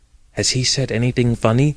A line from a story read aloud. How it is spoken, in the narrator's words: she whispered